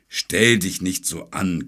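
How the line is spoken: Dragon's growl. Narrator (German): knurrte der Drache

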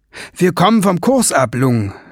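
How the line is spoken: Called out. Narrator (German): rief Ben

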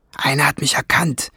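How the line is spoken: Hissing through bars. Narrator (German): zischte Schwefelfell durch die Stäbe

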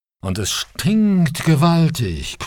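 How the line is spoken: Growling native. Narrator (German): knurrte einer der Ureinwohner

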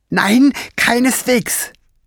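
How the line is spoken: Called out. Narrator (German): rief Fliegenbein und fuchtelte so aufgeregt mit den Armen herum

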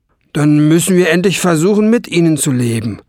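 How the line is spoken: Called out. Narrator (German): rief ein anderer

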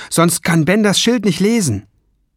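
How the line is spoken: Calling out. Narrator (German): rief Lung

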